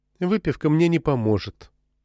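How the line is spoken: Gloomy remark. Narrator (Russian): уныло заметила Мэри

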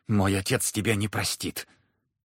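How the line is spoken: Pale, frightened mutter. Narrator (Russian): Троекуров сбледнул с лица окончательно, пробормотал

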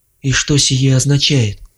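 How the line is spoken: Strained calm. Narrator (Russian): Голос Вардени звучал натянуто спокойно

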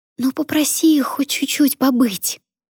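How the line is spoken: Loud whisper. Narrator (Russian): громким шепотом напомнила Аня

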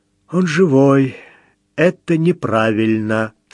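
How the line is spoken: Muffled, hollow voice. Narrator (Russian): сказал глухо

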